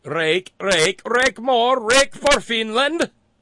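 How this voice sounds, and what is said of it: Bad put-on Finnish accent. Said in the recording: “that's a horrible Finnish accent”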